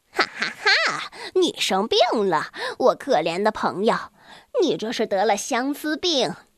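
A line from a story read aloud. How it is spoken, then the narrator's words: Mocking. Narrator (Chinese): 古纳贡德又一次嘲笑他说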